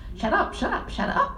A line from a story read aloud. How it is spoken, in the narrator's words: she shrieked